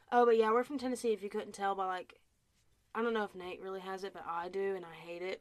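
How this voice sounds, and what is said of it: Southern US accent. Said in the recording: “I really have that southern... Accent, and I really don't like that, but I know you can hear it”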